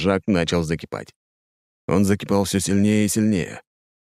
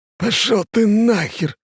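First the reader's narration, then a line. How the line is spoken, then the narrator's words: Hissing. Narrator (Russian): прошипел Жан-Жак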